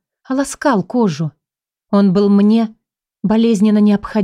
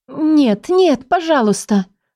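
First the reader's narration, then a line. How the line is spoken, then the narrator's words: Strained exclamation. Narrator (Russian): воскликнула я через силу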